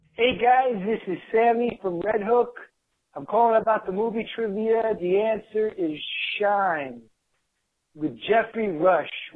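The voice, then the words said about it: Brooklyn accent. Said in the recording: “based on your accent, I'm saying Brooklyn.”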